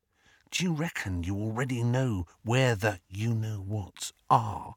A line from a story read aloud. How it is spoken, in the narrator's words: he dropped his voice to a whisper